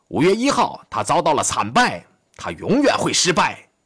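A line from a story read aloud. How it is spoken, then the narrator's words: Shouting. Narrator (Chinese): 一个前自由兵团的指挥官喊道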